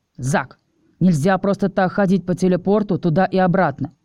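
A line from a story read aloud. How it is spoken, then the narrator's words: Growled. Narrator (Russian): рыкнул офицер Девлин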